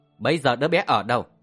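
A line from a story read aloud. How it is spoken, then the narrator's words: Loud shout. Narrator (Vietnamese): Dương Ngọc Phượng hét lớn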